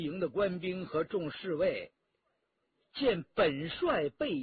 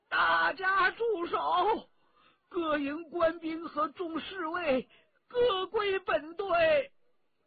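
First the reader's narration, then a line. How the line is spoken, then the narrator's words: Trembling loud shout. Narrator (Chinese): 福康安 颤声高叫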